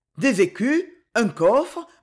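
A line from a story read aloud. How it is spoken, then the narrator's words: Stammered. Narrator (French): bégaya Cogolin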